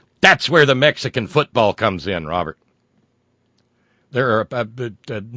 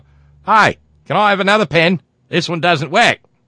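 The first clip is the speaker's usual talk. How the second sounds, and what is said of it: Cheesy put-on Australian accent. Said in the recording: “my cheesy Australian accent”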